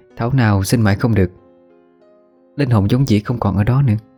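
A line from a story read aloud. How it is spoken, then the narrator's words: Sighing. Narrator (Vietnamese): Như ý thở dài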